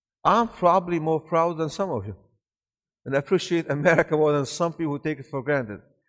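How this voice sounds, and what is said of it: Speaks with an interesting foreign accent. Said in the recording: “you have an interesting accent”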